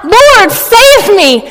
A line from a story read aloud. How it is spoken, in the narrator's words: noticed the strong wind, he became frightened and, beginning to sink, cried out